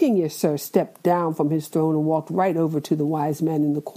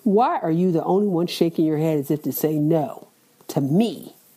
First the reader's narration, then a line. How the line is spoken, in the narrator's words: He growled